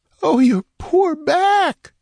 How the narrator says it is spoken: wailed

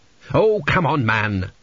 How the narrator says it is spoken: snapped Tepikaimon

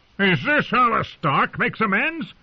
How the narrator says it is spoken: Black Walder shouted

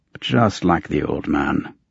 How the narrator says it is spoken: grumbled

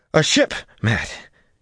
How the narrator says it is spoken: Estion panted

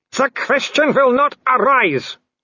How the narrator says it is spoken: Wolf bellowed

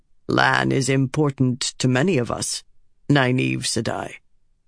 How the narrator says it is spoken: the warder Sleet said in a calm, gravelly voice

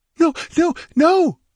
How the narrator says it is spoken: she cried, clutching at him desperately

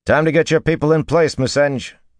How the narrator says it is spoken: Matt said loudly

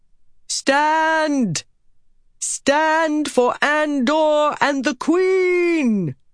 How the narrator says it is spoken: shouting with a power-aided voice

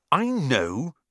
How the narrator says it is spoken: Ron snapped

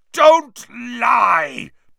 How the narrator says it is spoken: bellowed Black

